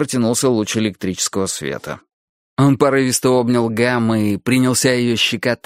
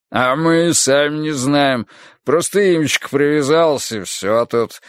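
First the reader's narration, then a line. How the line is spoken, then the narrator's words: Chuckle. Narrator (Russian): хохотнул Фариш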